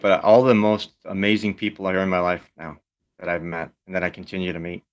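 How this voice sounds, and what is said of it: Choked-up, emotional voice. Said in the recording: “a little choked up”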